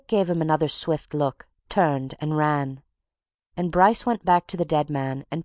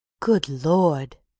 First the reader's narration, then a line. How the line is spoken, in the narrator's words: he gasped